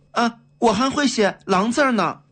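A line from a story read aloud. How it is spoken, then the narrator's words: Loud. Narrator (Chinese): 袁国良 大声说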